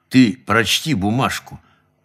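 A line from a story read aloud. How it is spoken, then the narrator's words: Low hostile voice. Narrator (Russian): очень посоветовал я ей низким недоброжелательным голосом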